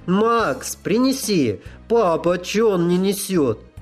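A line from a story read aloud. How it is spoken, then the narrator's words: Cheerful girl's shout. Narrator (Russian): Девчоночий голос весело крикнул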